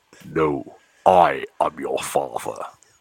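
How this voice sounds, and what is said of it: Deep Darth Vader voice impression. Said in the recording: “It's quite good, that, wasn't it? ... very good ... It hurt the back of my throat, though. James Earl Jones must have a constant sore throat.”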